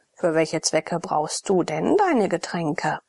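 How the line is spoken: Mocking. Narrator (German): sagte Abakes spöttisch

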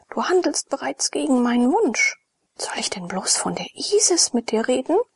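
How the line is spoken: Shuddering murmur. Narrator (German): murmelte Apesides mit Schaudern

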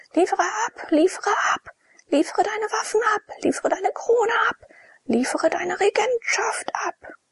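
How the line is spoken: Crowd shouting. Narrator (German): zog das Volk vor seinen Palast und schrie

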